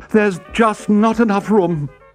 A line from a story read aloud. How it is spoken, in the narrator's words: cried their mother